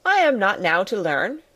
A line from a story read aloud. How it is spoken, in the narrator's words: replied Mr